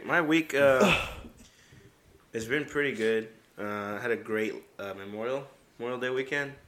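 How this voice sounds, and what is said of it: Voice slightly off. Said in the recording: “I've been hit with like uh, the allergies so my voice is a little off right now. And if you hear me cough”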